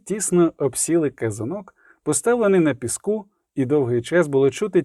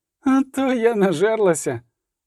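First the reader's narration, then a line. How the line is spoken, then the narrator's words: Groaning. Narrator (Ukrainian): простогнала Мільва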